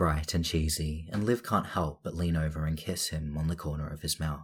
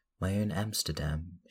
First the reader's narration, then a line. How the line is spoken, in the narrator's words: she says softly